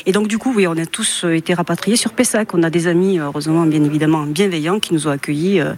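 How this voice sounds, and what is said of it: Toulouse French accent. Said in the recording (French): “ce bel accent que vous entendez, c'est un accent toulousain”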